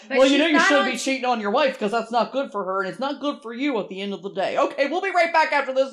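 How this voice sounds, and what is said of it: Impression of Dr. Phil. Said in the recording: “That was a really good impression of him.”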